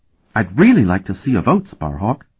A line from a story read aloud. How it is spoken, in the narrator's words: Talon said urgently